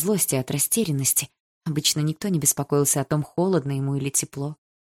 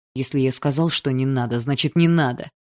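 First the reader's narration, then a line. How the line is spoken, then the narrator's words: Harsh bark. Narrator (Russian): рявкнул Барс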